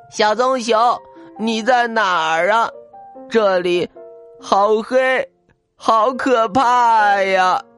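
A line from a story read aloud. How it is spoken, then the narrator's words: Frightened crying shout. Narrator (Chinese): 小白熊哭着大喊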